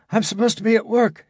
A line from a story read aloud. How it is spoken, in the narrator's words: he said breathlessly